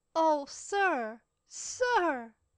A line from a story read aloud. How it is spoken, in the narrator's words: Cecil exclaimed